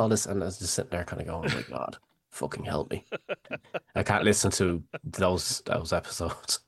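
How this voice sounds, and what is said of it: Usual voice. Nothing is said of it.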